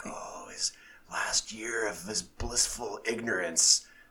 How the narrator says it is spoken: they're like whispering

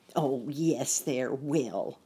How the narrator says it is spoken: the pessimist animal growled

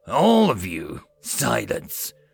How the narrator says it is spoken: one of the elders with an angry expression roared out

